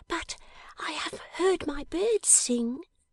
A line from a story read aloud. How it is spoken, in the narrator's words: cried the little creature